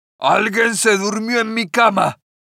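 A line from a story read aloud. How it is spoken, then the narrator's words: Big bear growling. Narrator (Spanish): gruñó el oso grandote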